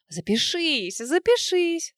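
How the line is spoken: Laughing. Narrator (Russian): смеялась подруга

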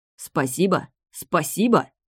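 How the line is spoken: Growled. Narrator (Russian): зарычал Чедвик

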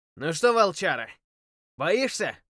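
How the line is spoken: Shouted. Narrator (Russian): прокричал

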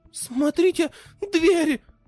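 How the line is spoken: Alarmed exclamation. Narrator (Russian): с тревогой воскликнула Тихоня

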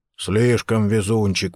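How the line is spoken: Grumble. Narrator (Russian): проворчал Ховард Карнс

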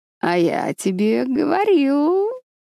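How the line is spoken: Purring. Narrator (Russian): промурлыкал Люцифер

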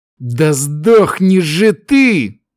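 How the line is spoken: Silent inner growl. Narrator (Russian): мысленно зарычал боец

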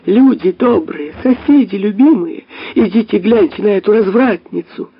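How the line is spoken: Sudden shrill shameless shout. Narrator (Russian): неожиданно закричала пронзительно, бесстыдно

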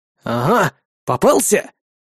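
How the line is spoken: Angry exclamation. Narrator (Russian): злобно воскликнул я

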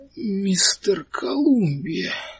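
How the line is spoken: Dull, muffled. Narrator (Russian): сказал он глухо

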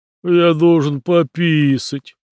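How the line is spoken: Whining. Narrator (Russian): заскулил он

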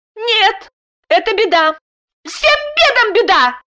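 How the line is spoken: Angry shriek. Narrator (Russian): гневно взвизгнула Даша

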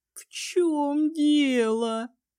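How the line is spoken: Moaning. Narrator (Russian): простонала Ливия

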